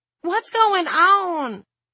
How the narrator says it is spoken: Lenny wailed

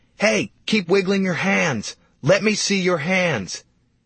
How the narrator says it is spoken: I screamed at her

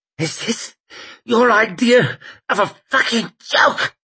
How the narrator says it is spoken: he croaked

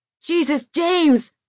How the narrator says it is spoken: John yelled

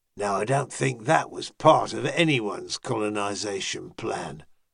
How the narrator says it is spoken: muttered Fethan

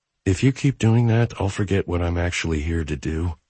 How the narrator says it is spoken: she whispered

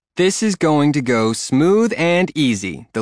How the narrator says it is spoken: the lady yelled over the jumbled up shouts of Zombie and Cassie

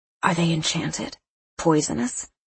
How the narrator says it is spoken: I murmured

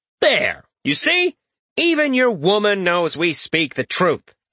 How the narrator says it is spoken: snaps Fred

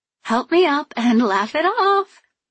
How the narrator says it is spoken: I giggled

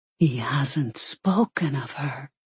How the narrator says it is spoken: Margarita noted in a horrified whisper

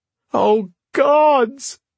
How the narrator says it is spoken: She wailed, because now she felt it

